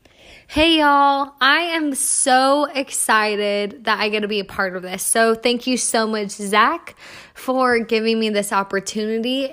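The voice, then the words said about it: A distinctive regional accent. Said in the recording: “she has a cool accent”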